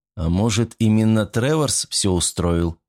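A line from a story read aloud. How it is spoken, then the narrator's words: Dry question. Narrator (Russian): сухо спросил охранник президента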